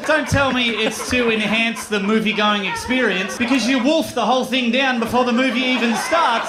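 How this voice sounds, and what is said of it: Australian accent. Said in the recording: “But an Australian accent, I'm like, oh, that's cute.”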